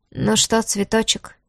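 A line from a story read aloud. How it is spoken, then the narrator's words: Dangerously quiet. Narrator (Russian): опасно тихо проговорил он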